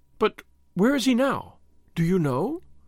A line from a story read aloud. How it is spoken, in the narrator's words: she asked eagerly